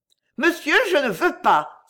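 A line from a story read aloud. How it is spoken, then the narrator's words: Frightened cry. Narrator (French): s'écria-t-elle effrayée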